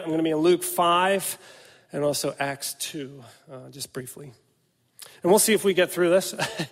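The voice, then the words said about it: Weak, fading voice. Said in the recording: “my voice is fading fast. I seem to have acquired a cold”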